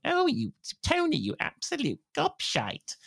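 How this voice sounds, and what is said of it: Imitates another person's voice. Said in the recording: “I do my impersonation of you ... That's my impersonation of your impersonation.”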